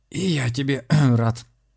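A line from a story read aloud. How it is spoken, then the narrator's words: Hoarse reply. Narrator (Russian): с хрипом ответил Дионисий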